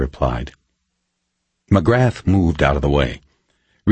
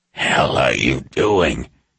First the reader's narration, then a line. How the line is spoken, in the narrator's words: McGrath hissed